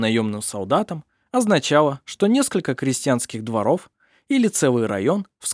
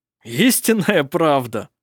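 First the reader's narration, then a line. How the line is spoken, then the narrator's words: Laughing. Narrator (Russian): смеялся он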